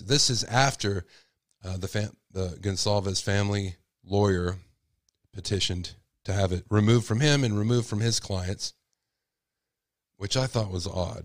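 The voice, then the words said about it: Strained, failing voice. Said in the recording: “I can barely speak. I'm losing my voice.”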